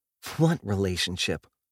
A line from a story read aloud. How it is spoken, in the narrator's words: Val says with a snort